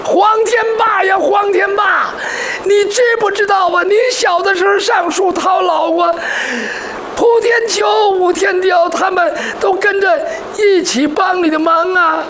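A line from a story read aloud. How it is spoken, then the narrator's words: Crying man scolding. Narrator (Chinese): 他哭的男人骂黄天霸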